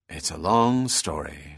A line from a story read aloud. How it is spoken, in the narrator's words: said Bell wearily